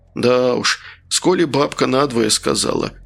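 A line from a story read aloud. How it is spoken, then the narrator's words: Sigh. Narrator (Russian): вздохнул Журба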